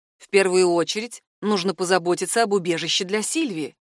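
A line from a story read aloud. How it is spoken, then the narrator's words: Plain. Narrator (Russian): сказал Жан-Себастьян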